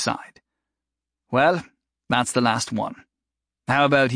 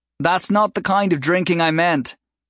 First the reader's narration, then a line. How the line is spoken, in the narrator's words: Jory called out